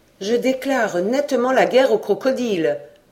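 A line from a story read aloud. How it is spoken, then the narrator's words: Exclaiming. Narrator (French): s'écria Robert Kergorieux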